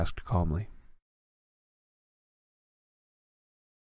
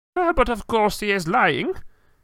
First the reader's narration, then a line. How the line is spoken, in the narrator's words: cried Madame Maxime